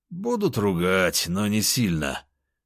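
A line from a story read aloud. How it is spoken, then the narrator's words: Bald man's snort. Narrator (Russian): хмыкнул лысый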